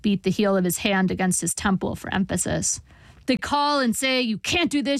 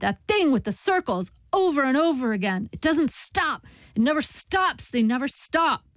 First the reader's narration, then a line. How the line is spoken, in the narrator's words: he shouted